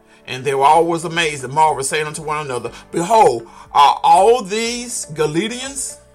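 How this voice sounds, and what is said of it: Southern American drawl. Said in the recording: “I'm from the south, so I have that southern accent, that southern drawl.”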